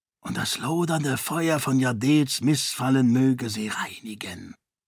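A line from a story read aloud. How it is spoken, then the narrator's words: Whispered quotation. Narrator (German): flüsterte zitierend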